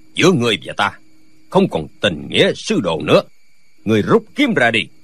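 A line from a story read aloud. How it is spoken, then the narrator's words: Old man shouting. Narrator (Vietnamese): lão quát lên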